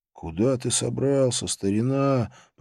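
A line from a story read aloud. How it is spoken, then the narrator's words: Moaning. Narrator (Russian): простонал я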